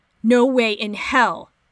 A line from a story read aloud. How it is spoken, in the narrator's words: Danny tells them both sternly